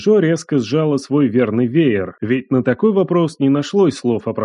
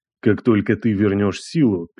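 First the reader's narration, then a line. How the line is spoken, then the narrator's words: Quiet interruption. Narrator (Russian): перебил он тихо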